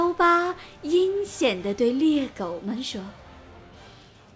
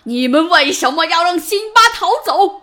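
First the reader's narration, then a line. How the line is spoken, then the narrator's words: Angry roar. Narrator (Chinese): 刀疤来到三只猎狗那里，对他们咆哮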